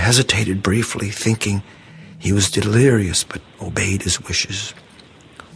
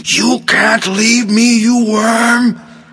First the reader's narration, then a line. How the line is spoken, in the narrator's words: Mildred screamed at the top of her lungs